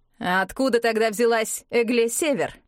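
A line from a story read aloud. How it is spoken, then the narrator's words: Curt question. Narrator (Russian): отрывисто спросил Оскар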